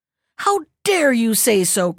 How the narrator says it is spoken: cried angrily

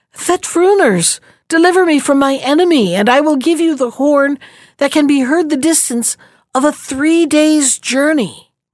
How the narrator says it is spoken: one of the combatants called out

